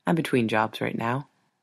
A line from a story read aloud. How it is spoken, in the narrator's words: he quietly says